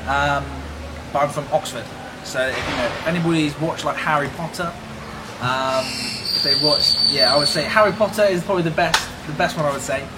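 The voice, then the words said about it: British accent. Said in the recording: “The lovely British accent.”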